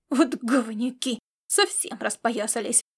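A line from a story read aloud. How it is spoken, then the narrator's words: Grumbled. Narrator (Russian): проворчал Ирвинг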